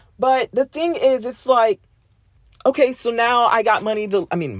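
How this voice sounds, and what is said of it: Usual voice. Nothing is said of it.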